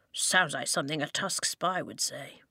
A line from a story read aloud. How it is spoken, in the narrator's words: Lofty muttered under his breath